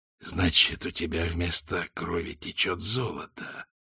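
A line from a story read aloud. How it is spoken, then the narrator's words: Hissed. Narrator (Russian): прошипел Визель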